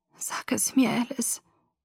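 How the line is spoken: Whispered. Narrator (German): flüsterte

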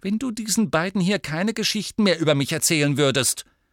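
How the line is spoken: Angry. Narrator (German): sagte sie wütend zu Ron

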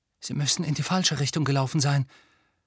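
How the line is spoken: Horrified whisper. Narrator (German): flüsterte Hermine mit entsetztem Gesicht

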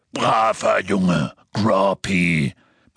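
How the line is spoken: Bellowing through broken glass. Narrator (German): brüllte er durch das Loch in der Scheibe

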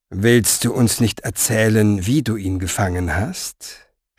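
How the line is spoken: Purring. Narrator (German): schnurrte

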